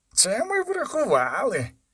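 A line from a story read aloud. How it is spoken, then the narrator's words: Hissing voice. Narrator (Ukrainian): шиплячим голосом промовив Корет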